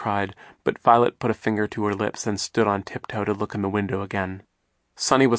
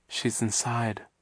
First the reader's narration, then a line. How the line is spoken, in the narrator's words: Violet murmured